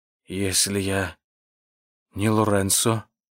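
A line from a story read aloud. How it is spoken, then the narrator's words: Old man's near-whisper. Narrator (Russian): почти шепотом прервал старик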